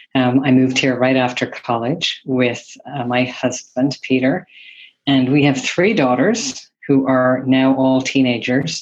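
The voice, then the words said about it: Irish accent. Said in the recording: “your dodgy accent ... I am originally from Ireland”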